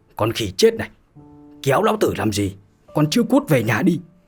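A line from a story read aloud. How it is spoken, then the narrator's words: Stern shout. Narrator (Vietnamese): lão nghiêm giọng mà quát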